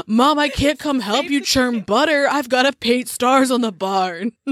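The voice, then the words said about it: Moody emo teenage boy voice. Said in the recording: “Do you love my moody 1900s teenager emo boy voice? That's a good accent. That's a fresh one.”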